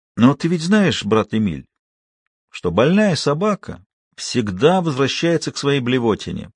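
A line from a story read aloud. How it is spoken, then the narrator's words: Cooing. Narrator (Russian): продолжал ворковать Гринер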